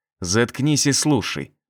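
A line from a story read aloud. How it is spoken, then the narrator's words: Through gritted teeth. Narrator (Russian): продолжал я разговор сквозь зубы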